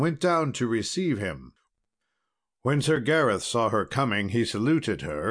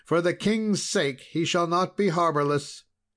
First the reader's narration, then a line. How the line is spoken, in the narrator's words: cried she